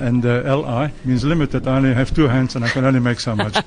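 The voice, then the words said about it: Belgian foreign accent. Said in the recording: “I'm guessing from your accent you're not from here originally ... born and bred in Belgium”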